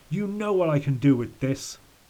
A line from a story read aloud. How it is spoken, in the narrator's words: he shouted